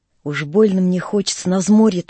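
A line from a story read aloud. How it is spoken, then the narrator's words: Pleading. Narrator (Russian): взмолился курносый Гришка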